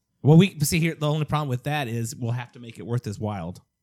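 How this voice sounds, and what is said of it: St. Louis accent. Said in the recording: “My St. Louis accent going on”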